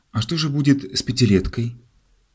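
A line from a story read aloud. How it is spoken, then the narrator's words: Worried girl's voice. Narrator (Russian): Внучка инвалида-гардеробщика, узнав, что ее дед заболел и не пойдет сегодня вечером на службу, спросила встревоженным голосом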